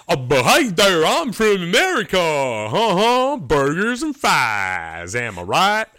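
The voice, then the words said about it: Deliberately bad American accent. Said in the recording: “not even a good accent ... this is me doing a bad American ... That's a British guy doing a bad impersonation”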